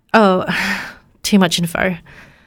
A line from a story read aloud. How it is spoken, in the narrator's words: Ella nervously said